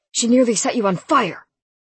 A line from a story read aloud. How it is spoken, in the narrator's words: he barked